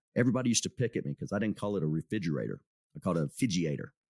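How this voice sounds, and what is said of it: Southern Texas accent. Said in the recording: “I still have some of that Southern Texas accent. It's almost as bad as when I grew up.”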